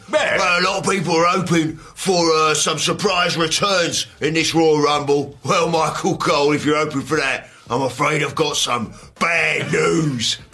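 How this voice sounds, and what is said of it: Imitates another person's voice. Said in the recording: “You got a good Wade Barrett impression.”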